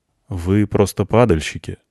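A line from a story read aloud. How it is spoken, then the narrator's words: Calm reminder. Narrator (Russian): напомнил спокойно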